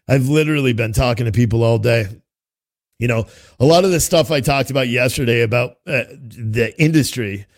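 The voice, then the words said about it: Hoarse, worn-out voice. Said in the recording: “I'm losing my voice pretty bad”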